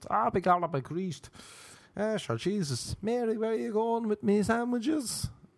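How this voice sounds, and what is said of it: American's fake Irish accent. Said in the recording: “can you do it more of like an American person doing an Irish accent? ... You want me to be like Tom Cruise Into the West?”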